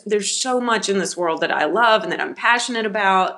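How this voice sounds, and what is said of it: Tennessee Southern accent. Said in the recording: “you live in Tennessee ... In case no one picked up on the accent yet.”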